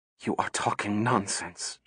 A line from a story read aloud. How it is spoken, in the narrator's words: she whispered